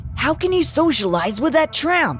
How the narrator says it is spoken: Nick asked angrily

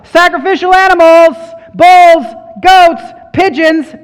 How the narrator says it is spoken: the money changers shouted out

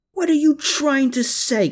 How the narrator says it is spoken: Klaus howled

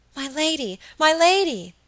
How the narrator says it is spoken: cried Phoebe

